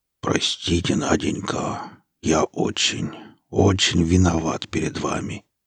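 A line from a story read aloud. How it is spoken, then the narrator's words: Quiet. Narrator (Russian): тихо проговорил сталкер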